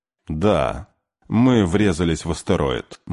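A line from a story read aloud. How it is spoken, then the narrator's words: Gloomy. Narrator (Russian): мрачно сказал Кей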